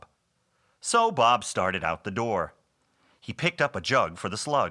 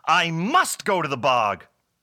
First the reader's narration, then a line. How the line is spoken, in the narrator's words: Bob shouted